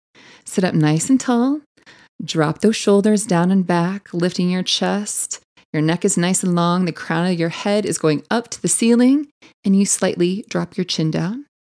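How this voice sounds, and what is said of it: Calm yoga teacher voice. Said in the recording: “that was my yoga teacher voice”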